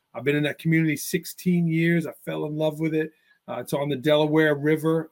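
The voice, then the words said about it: Slight New York accent. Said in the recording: “I grew up in Staten Island, New York, so I am a native New Yorker. You might hear a little bit of an accent”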